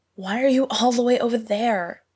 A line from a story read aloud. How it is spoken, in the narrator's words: gasped